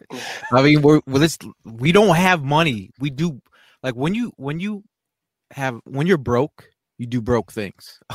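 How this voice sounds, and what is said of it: Kevin Hart impression. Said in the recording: “in my Kevin Hart voice”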